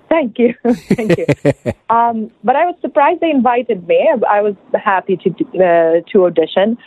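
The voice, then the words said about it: Slight non-American accent. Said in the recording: “I am not American. I do have a little accent, as you can hear.”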